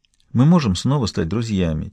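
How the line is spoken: Quiet question. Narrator (Russian): тихонько спросила Фиона

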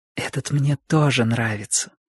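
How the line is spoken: Mother's whisper. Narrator (Russian): прошептала мама

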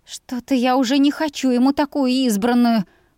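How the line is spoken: Groan. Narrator (Russian): простонала я

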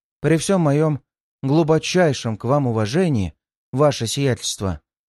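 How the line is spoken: Calm objection. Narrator (Russian): абсолютно спокойно возразила аристократка

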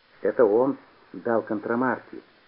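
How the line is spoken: Whisper. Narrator (Russian): шепнул Петя

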